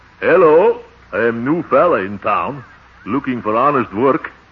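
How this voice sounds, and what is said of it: Put-on comic dialect voice. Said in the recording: “wait till I try this dialect on him”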